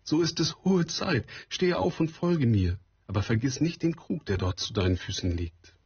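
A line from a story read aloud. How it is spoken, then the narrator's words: Whimpering woman. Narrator (German): wimmerte die Regenfrau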